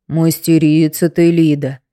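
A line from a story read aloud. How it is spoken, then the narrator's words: Low booming drone. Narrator (Russian): прогудел Тихон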